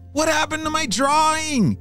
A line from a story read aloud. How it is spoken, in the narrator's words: James shouted